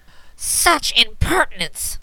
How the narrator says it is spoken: cried Indigo savagely

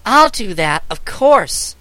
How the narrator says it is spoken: exclaimed the child

